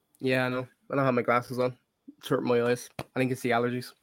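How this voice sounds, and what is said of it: Voice sounding unwell. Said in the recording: “As you can probably tell from my voice, I'm not doing too good this week.”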